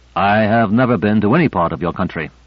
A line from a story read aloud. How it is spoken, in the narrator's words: said Benesch